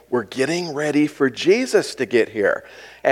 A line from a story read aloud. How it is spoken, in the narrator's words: His mother as quietly as possible explained